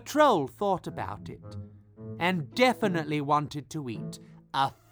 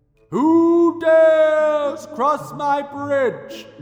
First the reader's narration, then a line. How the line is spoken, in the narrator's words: boomed the troll